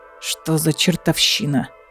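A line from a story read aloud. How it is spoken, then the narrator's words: Hiss. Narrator (Russian): прошипел Рульф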